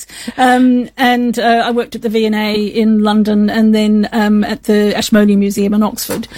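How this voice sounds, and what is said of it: Slight accent between two countries. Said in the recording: “We can tell a little accent there, just a teeny tiny one. ... Somehow it caught in between two countries, I think, in my voice.”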